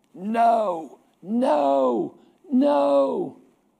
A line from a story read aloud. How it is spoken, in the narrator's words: he died screaming